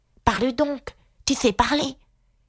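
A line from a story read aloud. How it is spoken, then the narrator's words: Impatient outcry. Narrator (French): s'écria Aïga d'un ton impatienté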